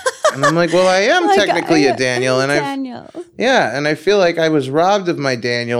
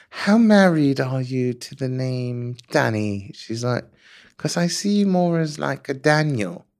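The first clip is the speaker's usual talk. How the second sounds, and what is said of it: Impression of an English woman. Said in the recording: “she's English, so I'll do my sort of impression of her”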